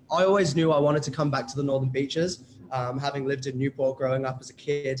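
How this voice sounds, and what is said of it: Posh British accent. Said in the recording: “the posh British accent that I'm stuck with now”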